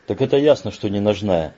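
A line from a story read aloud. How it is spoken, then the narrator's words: Contemptuous snort. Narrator (Russian): Бруно презрительно хмыкнул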